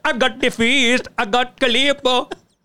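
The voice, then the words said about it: Put-on Bengali ice cream seller accent. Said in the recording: “Is that a good accent? ... this Bengali rickshaw ice cream van guy”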